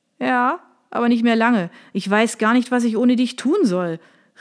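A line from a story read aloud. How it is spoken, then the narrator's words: Calling after someone. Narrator (German): rief ihr Sergio nach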